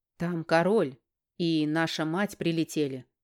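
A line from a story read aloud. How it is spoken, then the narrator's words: Snorting brother. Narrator (Russian): хмыкнул брат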